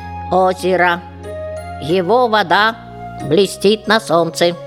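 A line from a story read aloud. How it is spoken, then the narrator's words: Even, level voice. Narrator (Russian): Дуся ровным голосом сообщила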